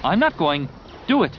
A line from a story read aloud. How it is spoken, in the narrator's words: Anakin snapped